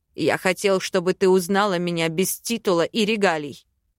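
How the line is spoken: Barked interruption. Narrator (Russian): рявкнул он, перебив меня

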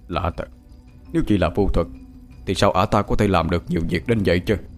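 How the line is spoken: Old beggar muttering. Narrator (Vietnamese): lão ăn mày què lẩm bẩm bên tai

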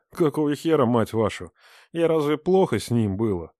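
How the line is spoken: Frenzied moaning. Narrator (Russian): Стонала, как ненормальная

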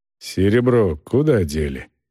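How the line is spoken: Quiet, discreet question. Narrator (Russian): тихо спрашивал кавалеру Сыча так, чтобы солдаты не слыхали

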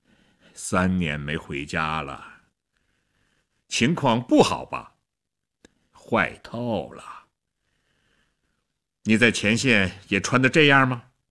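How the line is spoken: Sighing. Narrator (Chinese): 薛特林叹了口气

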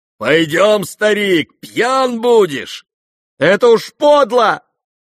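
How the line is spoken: Shouting, crying with shame. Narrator (Russian): крикнул Коля, совсем плача от стыда и досады

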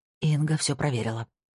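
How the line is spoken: Whispered. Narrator (Russian): прошептала она

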